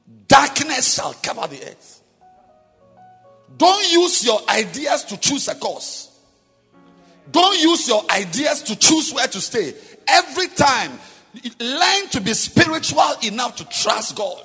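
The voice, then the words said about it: Shouting loudly. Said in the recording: “Sorry for shouting.”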